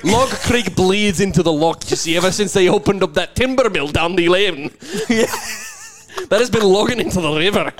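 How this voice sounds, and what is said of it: Put-on Scottish accent. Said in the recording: “I'm nailing the Scottish accent now.”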